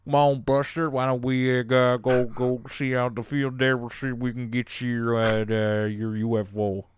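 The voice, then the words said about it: Very cowboy rancher accent. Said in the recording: “Started to blend together with my Jesse Ventura a little bit, but it's just very, very, very cowboy, very much the accent you'd expect of a rancher”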